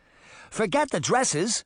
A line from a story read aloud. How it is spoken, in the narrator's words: she cried, as flames rapidly spread throughout the store